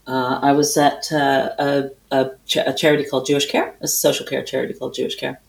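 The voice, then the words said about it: Canadian accent. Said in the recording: “you hail from Canada? ... I do hail from Canada. I haven't lost my accent.”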